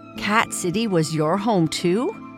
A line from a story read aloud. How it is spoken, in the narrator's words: He snarled